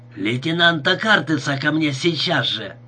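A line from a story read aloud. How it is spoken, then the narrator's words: Barking shout. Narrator (Russian): рявкнул часовому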